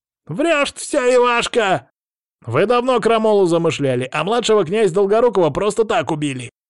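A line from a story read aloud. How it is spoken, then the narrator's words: Nobleman's sudden yell. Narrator (Russian): Вдруг завопил один из вельмож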